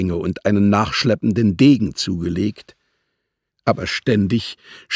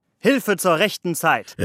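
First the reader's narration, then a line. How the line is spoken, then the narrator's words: Exclaiming. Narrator (German): rief Muscari aus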